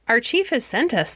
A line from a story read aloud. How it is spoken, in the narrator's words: they said